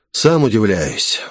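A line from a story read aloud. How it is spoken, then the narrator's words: Theatrical sigh. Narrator (Russian): вздохнул я, кажется, слишком напоказ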